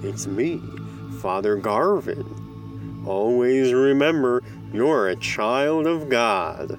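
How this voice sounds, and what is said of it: Exaggerated yokel accent. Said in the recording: “He spoke with an exaggerated yokel accent.”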